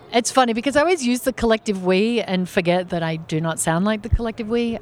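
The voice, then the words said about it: Australian accent. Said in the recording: “You don't sound like a Southerner's over here... Tell me about that accent... I am originally Australian... But you still accent. Got the accent's awesome.”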